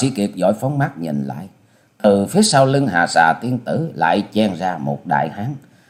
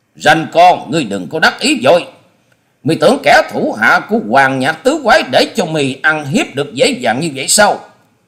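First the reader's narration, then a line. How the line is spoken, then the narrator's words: Loud bellowing shout. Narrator (Vietnamese): Chợt một giọng sống lên như trâu kêu quát to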